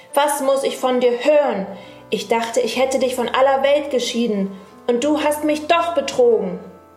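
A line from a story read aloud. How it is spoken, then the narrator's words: Sorceress calling out. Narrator (German): rief die Zauberin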